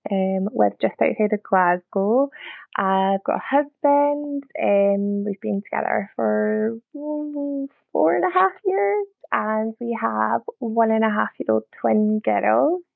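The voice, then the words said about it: Scottish accent. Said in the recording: “I'm Scottish, probably tell by the accent.”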